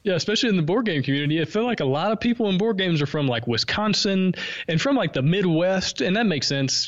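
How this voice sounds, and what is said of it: Southern American accent. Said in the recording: “you have a pretty distinctive voice there ... my Southern accent helps me stick out just a little bit”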